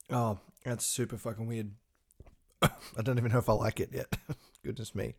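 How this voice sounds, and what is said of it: Slightly hoarse voice. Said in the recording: “my throat sounds a little bit hoarse today”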